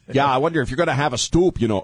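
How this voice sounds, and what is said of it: Put-on Midwestern American accent. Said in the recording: “why am I doing a Midwestern accent?”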